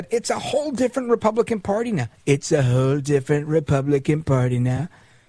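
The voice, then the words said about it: Imitates another person's voice. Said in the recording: “I'm doing it in my Trump impression.”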